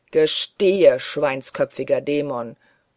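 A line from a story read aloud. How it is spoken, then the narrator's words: Roaring lion-like voice. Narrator (German): brüllte Bischof Bonner mit Löwenstimme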